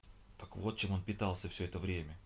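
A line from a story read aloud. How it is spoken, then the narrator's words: Whispering. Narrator (Russian): шепотом произнесла Тинка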